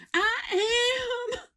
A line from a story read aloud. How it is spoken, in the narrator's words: she yelled